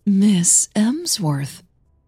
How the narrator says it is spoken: she said, her voice sweet as honey

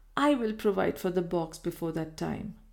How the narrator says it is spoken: she answered sadly

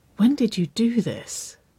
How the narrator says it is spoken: She breathed

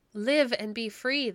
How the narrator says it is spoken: they cried

